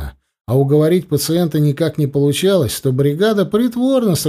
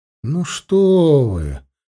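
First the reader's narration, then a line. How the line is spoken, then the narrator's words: Gentle reproach. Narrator (Russian): мягко упрекнул Данилов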